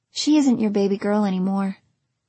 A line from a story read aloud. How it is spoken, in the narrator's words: the woman said softly